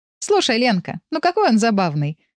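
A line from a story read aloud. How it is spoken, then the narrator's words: Laughing. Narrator (Russian): смеялась Света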